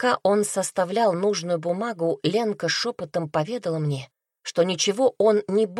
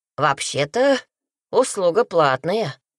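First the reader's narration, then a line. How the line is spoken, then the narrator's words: Wry snort. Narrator (Russian): хмыкнул он, увидев замок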